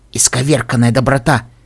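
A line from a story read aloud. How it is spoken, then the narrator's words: Hissing voice in head. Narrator (Russian): Голос пони в моей голове зашипел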